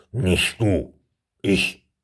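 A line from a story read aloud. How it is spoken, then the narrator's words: Confident grumble. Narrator (German): brummte Berthold siegessicher neben ihm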